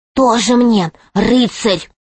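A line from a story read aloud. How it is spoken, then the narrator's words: Whispered. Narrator (Russian): прошептала Алиса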